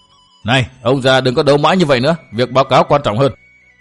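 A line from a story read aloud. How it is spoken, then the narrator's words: Impatient urgent shout. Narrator (Vietnamese): Âm bà nóng lòng sốt ruột vô cùng, vội lên tiếng quát bảo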